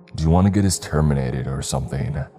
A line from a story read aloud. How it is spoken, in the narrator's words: I said, a bit of a snarl at the end of my tone